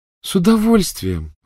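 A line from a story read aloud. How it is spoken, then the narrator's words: Cheerful reply. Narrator (Russian): радостно откликнулась Полумна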